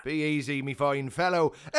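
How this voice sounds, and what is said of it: Exaggerated put-on Irish accent. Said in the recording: “you can dial that accent back a bit”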